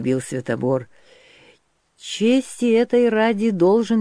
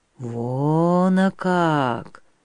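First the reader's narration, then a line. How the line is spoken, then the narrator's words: Disappointed bitter drawl, old man. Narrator (Russian): разочарованно и горько протянул старик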